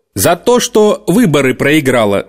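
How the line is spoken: Stern. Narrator (Russian): строго сказал Клинтон

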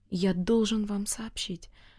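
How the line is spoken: Trembling voice. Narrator (Russian): произнес тоже дрожащим голосом Алеша

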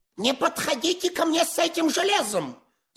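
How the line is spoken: Shrieking. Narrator (Russian): завизжал Паниковский

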